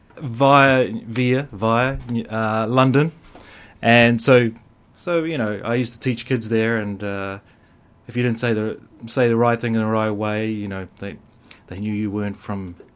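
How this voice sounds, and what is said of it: New Zealand accent. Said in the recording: “probably from the accent, people know that I'm from elsewhere... I'm from New Zealand”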